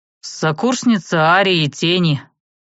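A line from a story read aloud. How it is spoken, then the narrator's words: Irritated reply. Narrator (Russian): раздраженно ответил магистр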